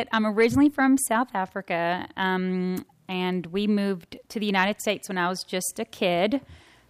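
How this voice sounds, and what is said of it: Southern American accent. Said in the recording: “I'm not from around here, even though I sound like it. ... I worked really hard on my Southern accent, which I think I've done pretty good. ... You nailed it.”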